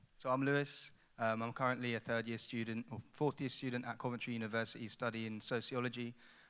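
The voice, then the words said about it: Southeast English regional accent. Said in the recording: “I've got a bit of an accent ... I'm actually from a place called Ipswich ... on the southeast”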